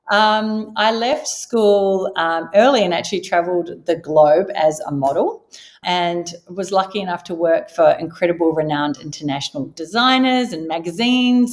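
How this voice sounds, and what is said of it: Slight New Zealand accent. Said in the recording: “I was born and raised in New Zealand, if you haven't already gathered from the slight accent.”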